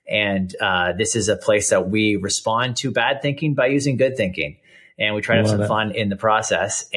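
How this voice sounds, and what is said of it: Canadian accent. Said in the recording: “people might notice the accent. I'm Canadian.”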